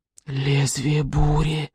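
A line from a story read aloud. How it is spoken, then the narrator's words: Breathless awe. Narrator (Russian): выдохнул толстопуст Пивобрюх в благоговейном ужасе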